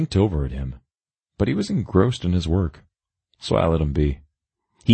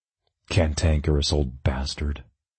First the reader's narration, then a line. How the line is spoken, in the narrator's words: I grumbled under my breath